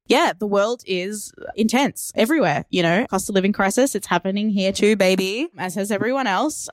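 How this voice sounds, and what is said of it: Australian accent. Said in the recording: “Melbourne, Australia. You can try and copy the accent”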